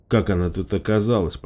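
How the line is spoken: Muttered. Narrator (Russian): пробормотала

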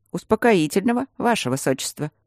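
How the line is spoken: Sickly sweet voice. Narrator (Russian): отвратительно приятным голосом предложил Тандаджи

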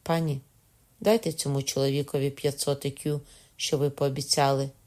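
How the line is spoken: Solemn, grand. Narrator (Ukrainian): зробивши урочистий, навіть величний рух, сказав

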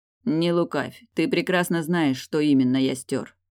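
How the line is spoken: Calm, matter-of-fact. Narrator (Russian): парировал спокойно, даже обыденно

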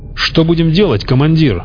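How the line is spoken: Bellowed over noise. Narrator (Russian): гаркнул Стеценко, пытаясь перекрыть грохот

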